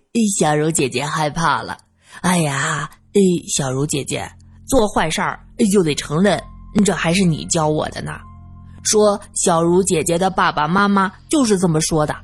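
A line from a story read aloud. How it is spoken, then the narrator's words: Laughing, clapping. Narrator (Chinese): 二先生拍手笑道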